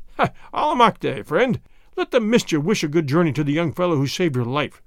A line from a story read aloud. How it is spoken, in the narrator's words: said with one of his hearty laughs